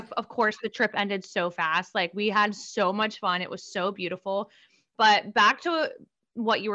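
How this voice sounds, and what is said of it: Usual voice. Nothing is said of it.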